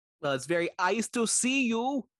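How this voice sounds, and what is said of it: Imitates another person's voice. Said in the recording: “my Arnold Schwarzenegger impression”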